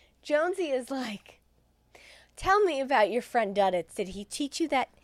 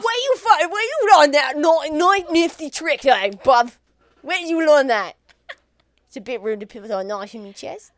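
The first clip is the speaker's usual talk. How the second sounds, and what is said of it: Poor attempt at British accent. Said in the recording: “I'll try to do a British accent. Warning, this is going to suck. ... Rough.”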